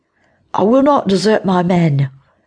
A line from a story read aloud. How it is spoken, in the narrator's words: Thomas called out